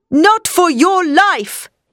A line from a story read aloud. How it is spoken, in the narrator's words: cried